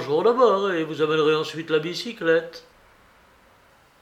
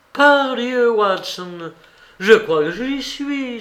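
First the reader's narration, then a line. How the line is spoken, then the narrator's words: Exclaimed. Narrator (French): s'écria-t-il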